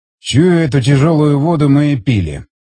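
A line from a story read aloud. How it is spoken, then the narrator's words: Grumble. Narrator (Russian): проворчал Стечкин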